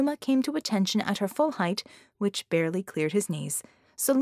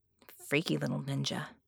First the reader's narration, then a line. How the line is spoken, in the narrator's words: Scope muttered